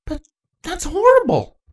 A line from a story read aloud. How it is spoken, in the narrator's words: Panacea gasped